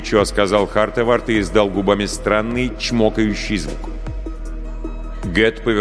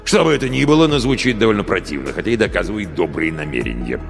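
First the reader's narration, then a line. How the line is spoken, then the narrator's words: Grumbling. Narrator (Russian): проворчал Гет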